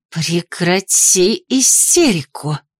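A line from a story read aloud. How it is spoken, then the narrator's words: Snake-like hiss. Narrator (Russian): змеей прошипела Офелия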